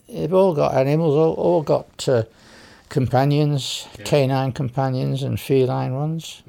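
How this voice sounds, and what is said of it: British accent. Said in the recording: “Anyone listening's detected the accent by now. Tell us about your roots back at home in the UK”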